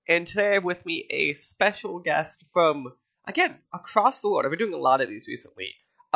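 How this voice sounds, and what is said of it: Nasal, congested voice. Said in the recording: “Sorry that I sound like this. I have a cold... so I sound a little more nasally than usual.”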